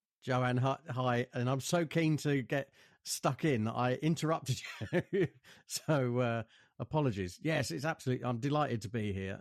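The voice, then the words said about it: Joyful, upbeat radio-presenter voice. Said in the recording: “that's my joyful radio voice. Or I could be an ordinary bloke”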